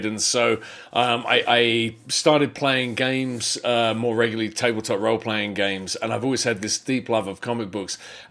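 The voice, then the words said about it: Mixed foreign accent. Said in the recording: “have this wacky accent because I'm a first-generation immigrant that's moved around a lot and then just ended up in the U.S.”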